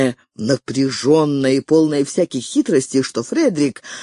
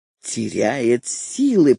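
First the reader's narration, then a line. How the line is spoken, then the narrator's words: Hissed. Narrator (Russian): прошипел англичанин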